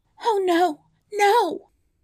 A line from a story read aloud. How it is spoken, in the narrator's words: she cried